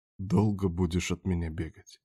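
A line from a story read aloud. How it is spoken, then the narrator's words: Whisper. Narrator (Russian): шепнул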